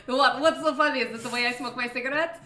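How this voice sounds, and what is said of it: Ambiguous hard-to-place put-on accent. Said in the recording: “my hard to place accent? ... If anyone knows what this accent is, please let me know. ... It's ambiguous.”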